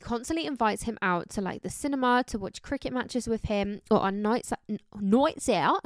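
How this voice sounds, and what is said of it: Slips into an Australian accent. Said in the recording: “put on my reading voice when I read ... Like my phone voice. ... Why did I why did I go like Aussie?”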